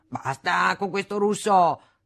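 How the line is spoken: Father thundering. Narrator (Italian): tuonava mio padre

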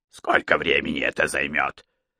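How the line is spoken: Rude question. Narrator (Russian): спросил Кацумата еще более грубо

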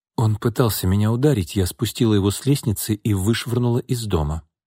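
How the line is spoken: Calm. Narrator (Russian): спокойно сказала Настя

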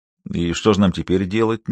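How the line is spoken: Uncertain question. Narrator (Russian): неуверенно спросил

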